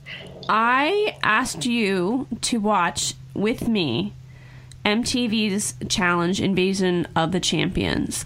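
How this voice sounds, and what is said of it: Philadelphia accent. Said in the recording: “my Philadelphia accent is in full effect”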